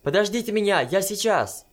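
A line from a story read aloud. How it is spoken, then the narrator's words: Piercing shout. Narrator (Russian): крикнула Санока так пронзительно, что бабушка даже вздрогнула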